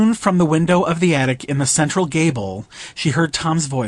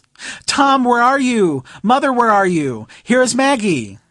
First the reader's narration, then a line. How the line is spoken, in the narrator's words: She called out in a loud, piercing voice